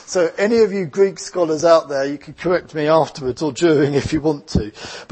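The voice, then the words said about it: Essex English accent. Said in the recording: “my Essex English accent”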